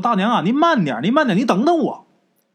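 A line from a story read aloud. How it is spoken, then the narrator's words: Girl calling out repeatedly. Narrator (Chinese): 这姑娘啊，不停的喊呐，说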